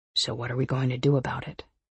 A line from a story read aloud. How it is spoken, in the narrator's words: he asks softly